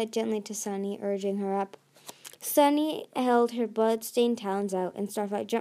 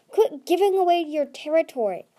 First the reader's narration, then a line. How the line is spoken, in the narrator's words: Glory snapped